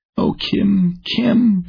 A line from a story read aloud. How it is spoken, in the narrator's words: sobbed